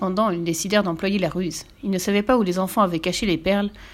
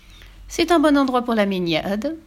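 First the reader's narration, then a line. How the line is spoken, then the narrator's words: Honeyed, sweet tone. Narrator (French): demanda-t-il d'un ton mielleux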